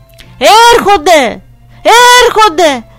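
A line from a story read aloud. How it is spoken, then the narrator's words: Mother's hurried shout downward. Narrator (Greek): φώναξε βιαστική και η μάνα μου προς τα κάτω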